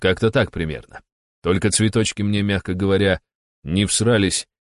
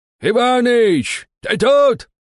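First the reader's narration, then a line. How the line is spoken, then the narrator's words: Old man shouting. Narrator (Russian): кричал дед Макар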